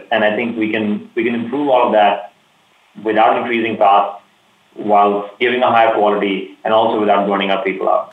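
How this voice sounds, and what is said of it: Enthusiastic, energetic speaking voice. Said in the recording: “I can hear the enthusiasm in your voice”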